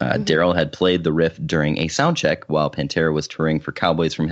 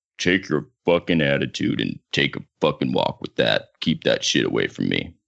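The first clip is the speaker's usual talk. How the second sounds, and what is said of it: Imitates another person's deep voice. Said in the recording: “my Anselmo impression ... you're not quite deep enough ... you need to smoke deep. More.”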